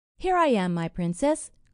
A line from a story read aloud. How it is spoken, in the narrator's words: cried a voice from under the basket